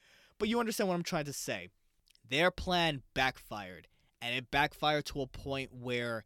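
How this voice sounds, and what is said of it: Usual voice. Nothing is said of it.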